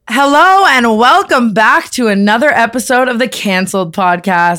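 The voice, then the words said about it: Changed, sick-sounding voice. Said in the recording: “my voice just completely changing? ... You sound sick.”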